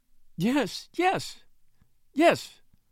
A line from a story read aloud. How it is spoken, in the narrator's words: sobbed the widow